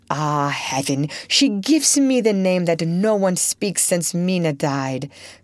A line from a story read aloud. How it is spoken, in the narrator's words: cried the professor